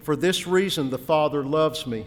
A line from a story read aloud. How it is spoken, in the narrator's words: he said